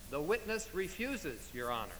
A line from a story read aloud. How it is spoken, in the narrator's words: the clerk replied